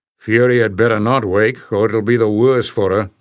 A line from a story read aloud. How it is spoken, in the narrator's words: growled Bowder